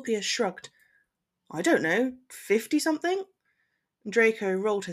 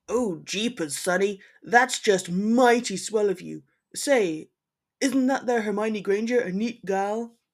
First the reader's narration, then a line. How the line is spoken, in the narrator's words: Scorpius growled